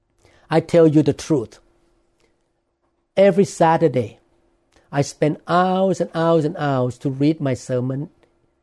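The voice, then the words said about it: Thai-accented English. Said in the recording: “my accent, because of the way I have to speak English ... all these are not in Thai language. Very difficult pronunciation for me”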